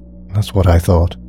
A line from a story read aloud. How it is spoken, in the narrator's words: sighed the officer